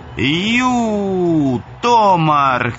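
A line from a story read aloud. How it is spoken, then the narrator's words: Shouted to attract attention. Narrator (Russian): крикнул Мануэль, чтобы привлечь внимание быка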